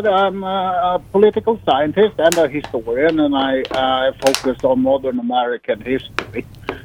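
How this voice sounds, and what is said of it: Swedish accent. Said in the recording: “as this listener may hear on my accent, I'm not from around these parts. I'm originally from Sweden”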